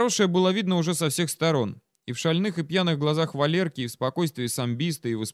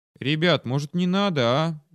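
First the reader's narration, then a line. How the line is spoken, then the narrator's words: Anxious, dreary voice. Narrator (Russian): тоскливым голосом заговорил Дима, чувствуя неуклонно приближающееся нехорошее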